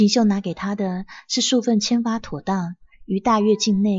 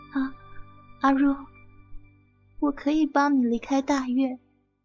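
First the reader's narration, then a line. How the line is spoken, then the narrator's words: Low, on the verge of tears. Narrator (Chinese): 锦绣就用低低的，仿佛要哭出来的声音，再次重复说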